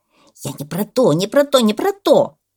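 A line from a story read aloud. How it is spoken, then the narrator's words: Shouting parrot. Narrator (Russian): закричал попугай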